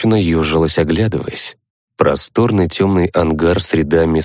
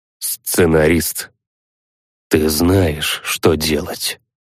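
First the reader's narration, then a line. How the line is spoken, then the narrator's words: Quiet. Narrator (Russian): тихо сказал сценарист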